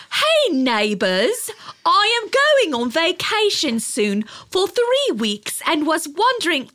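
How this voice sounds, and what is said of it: Put-on British accent. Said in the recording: “Should I read it in a British accent”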